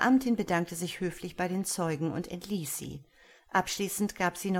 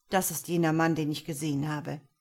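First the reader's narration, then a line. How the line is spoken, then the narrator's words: Dry remark. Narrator (German): sagte trocken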